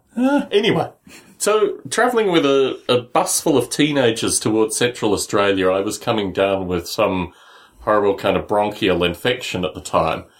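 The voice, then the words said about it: South Australian accent. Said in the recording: “Australian... accent is not sort of, from my mind, traditional brogue... South Australian”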